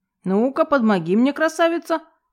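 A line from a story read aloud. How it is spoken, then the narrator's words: Barked shout. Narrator (Russian): гаркнул Макар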